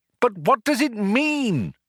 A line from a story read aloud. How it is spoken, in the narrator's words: cried Arthur